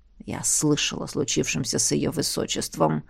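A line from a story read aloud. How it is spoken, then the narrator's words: Wheezing. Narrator (Russian): просипел Эмиль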